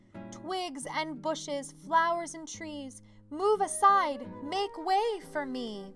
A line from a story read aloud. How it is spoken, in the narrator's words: he cried out